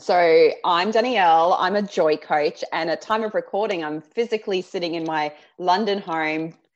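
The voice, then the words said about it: Australian accent. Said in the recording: “I'll try and ramp up my Aussie accent”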